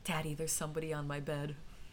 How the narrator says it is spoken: quivering and whispering

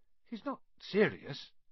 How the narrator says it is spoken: he muttered to Percy

